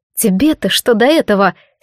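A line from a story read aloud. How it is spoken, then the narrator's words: Angrily cutting herself off. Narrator (Russian): сердито оборвала себя Джад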